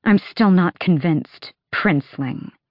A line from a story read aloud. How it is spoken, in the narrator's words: she hissed